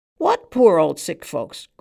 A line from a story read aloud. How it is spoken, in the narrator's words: cried the man on the stool